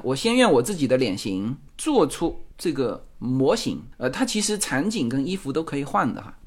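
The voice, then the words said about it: Heavy regional accent in Mandarin. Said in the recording (Chinese): “我这个口音重，口音重没关系啊”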